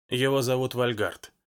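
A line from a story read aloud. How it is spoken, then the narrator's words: Quiet indifferent voice. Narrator (Russian): тихо, безразлично сказала она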